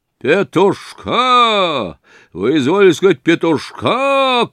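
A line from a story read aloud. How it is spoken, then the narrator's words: Shouted. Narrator (Russian): крикнул Провианский господин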